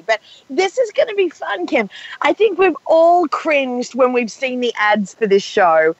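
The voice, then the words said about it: Raspy, strained voice. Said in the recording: “Forgive me for my voice ... my voice is pretty raspy”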